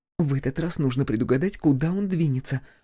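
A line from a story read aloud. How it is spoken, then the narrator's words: Whisper. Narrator (Russian): прошептала она Василисе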